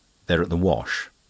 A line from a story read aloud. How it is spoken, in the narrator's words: Denis replied rather curtly